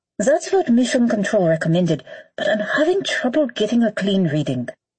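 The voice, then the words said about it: Swiss-German accent, crackly radio sound. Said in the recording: “Swiss-German accent crackled across space.”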